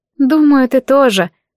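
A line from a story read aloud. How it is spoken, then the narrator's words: Sighing reply. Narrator (Russian): ответила она, вздохнув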